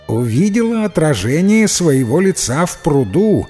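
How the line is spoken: Plain. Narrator (Russian): ответила девушка

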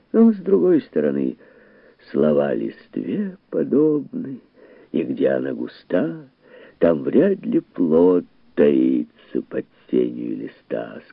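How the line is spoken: Plain. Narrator (Russian): сказал Александр Поп

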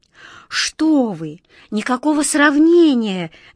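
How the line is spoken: Passionate exclamation. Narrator (Russian): горячо воскликнула ласточка

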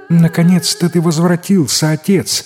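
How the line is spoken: Exclaimed. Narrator (Russian): воскликнула она

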